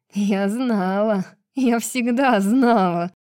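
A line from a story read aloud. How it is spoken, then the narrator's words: Malicious hiss. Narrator (Russian): злобно шипела Гарпия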